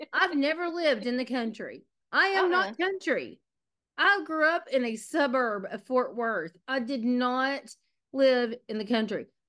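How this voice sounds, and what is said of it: Texas accent. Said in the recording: “I have been called out for my Texas accent so many times lately ... This is a Texas accent.”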